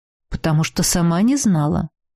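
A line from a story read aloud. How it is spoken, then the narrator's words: Calm objection. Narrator (Russian): спокойно возразил Урейшас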